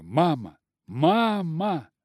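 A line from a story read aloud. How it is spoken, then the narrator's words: Exclaimed. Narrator (Russian): воскликнула она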